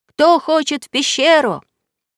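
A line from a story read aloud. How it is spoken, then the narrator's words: Someone shouting. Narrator (Russian): кто-то крикнул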